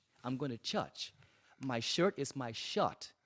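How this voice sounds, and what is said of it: Grand Turk island dialect pronunciation. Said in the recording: “in Grand Turk, we have a dialect that actually comes out of the African, from Africa through the Carolinas. In South Carolina, it's the Gullah people.”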